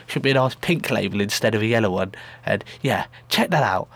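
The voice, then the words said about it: Congested voice from a cold. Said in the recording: “if you're wondering why I sound like this, it's because I have a cold ... I've even got tissue up each one of my nostrils”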